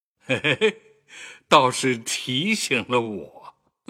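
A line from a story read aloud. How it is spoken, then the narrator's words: Laughing. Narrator (Chinese): 贾政……笑道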